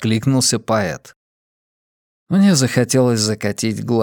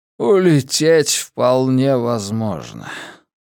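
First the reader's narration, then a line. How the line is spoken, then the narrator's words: Tired. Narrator (Russian): устало произнес Силен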